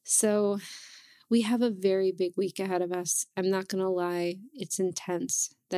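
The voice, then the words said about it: Raspy, hoarse voice. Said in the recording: “i apologize for my voice i know it's not um, all that pleasant to listen to i do have allergies ... it's not how it usually sounds ... raspier voice”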